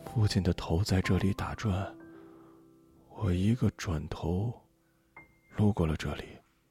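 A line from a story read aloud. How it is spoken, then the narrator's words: Muttering to herself. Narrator (Chinese): 她喃喃自语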